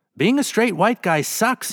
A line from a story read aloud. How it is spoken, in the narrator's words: cried out